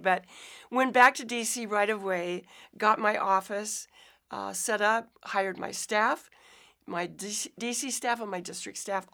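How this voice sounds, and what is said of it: Hoarse, raspy voice. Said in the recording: “I'm a little hoarse. ... I lost my voice the day after Thanksgiving. ... it's a little raspy.”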